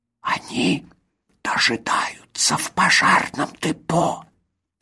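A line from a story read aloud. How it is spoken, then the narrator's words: Whisper. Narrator (Russian): прошептал Хоцинплоц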